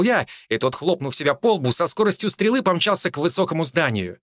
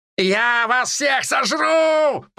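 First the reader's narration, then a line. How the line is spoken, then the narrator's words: Monster's shout. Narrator (Russian): прокричал монстр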